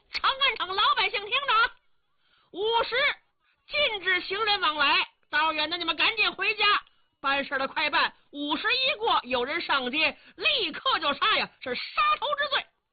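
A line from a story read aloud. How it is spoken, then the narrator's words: Soldiers shouting loudly. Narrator (Chinese): 这官兵们高声喊嚷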